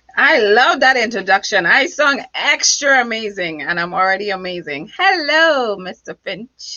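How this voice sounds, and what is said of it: Foreign accent. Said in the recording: “with that accent, you are above amazing ... it is the 10th sexiest accent in the world”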